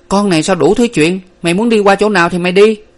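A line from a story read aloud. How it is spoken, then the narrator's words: Sharp shout. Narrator (Vietnamese): Nguyệt quát lên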